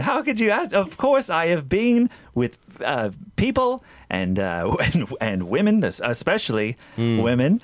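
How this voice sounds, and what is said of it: Unconvincing put-on accent. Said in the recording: “That's about as true as your accent”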